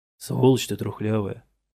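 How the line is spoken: Mock-polite mutter. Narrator (Russian): любезно пробормотал я соседу

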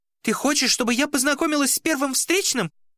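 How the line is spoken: Young woman shrieking. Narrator (Russian): взвизгнула девушка

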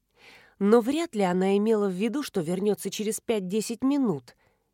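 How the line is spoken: Gentle objection. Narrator (Russian): мягко возразила Петровская

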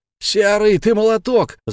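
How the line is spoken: Group yelling. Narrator (Russian): заорали защитники

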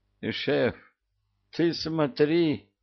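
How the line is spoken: Hoarse voice from behind. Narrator (Russian): раздался сзади чей-то хриплый голос

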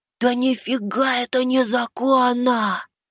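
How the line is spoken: Hissing. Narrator (Russian): прошипел Макс

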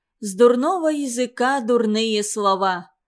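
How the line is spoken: Shouted after someone. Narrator (Russian): крикнула Захира ей вслед

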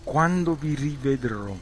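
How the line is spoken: Plain question. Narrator (Italian): chiese

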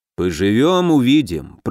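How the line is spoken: Muttered under breath. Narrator (Russian): проворчал Муром себе под нос

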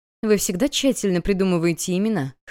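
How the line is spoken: Laughing question. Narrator (Russian): хохотнула Вив

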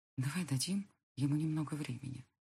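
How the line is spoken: Barely audible. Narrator (Russian): едва слышно говорю

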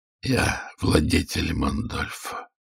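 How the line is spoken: Hoarse voice. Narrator (Russian): выговорил я хриплым голосом

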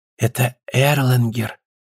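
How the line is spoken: Whisper. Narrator (Russian): сказал Бюргель шепотом

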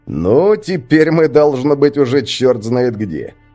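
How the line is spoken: Speech then loud laughter. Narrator (Russian): произнес он и громко рассмеялся

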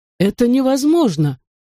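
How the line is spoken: Shocked exclamation. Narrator (Russian): потрясенно выкрикнул доктор Лизандр

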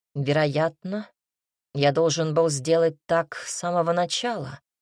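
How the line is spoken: Declared menacingly. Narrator (Russian): грозно заявил

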